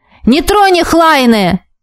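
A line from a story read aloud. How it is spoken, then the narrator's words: Yelling into ear. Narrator (Russian): заорал мне в ухо маг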